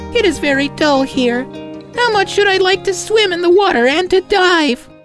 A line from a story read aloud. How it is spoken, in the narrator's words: the duckling said sadly